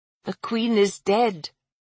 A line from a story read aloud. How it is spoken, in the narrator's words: Gwen whispered